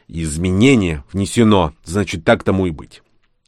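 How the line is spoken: Irritated. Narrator (Russian): раздраженно произнес

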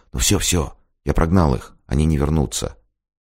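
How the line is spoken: Whisper. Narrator (Russian): Алексей прошептал

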